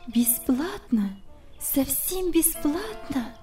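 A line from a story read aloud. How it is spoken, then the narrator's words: Confused mumble. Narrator (Russian): пробормотала она, совсем сбитая с толку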